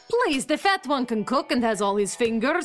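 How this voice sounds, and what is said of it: Put-on Eastern European accent. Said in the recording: “I thought you were Russian. ... Can't you tell from my perfect regional dialect? I'm Romanian, but nobody here can tell the difference.”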